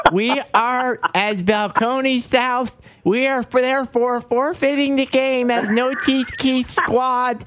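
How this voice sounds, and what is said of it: Imitates another person's voice. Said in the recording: “you're killing that impression. It's so good.”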